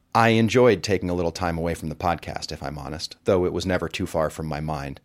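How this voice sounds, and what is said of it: Hoarse, froggy voice. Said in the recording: “You can probably hear in my voice that we danced for about 8 hours, and I sung my heart out, but my voice hasn't quite recovered, so I'm sorry if I sound a little froggy.”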